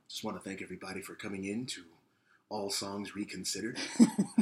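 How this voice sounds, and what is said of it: Public radio host voice. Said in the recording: “we are both capable of doing a very good NPR voice... do your best NPR voice”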